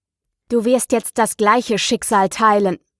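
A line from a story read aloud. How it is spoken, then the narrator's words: Determined grumble. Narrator (German): brummte er entschlossen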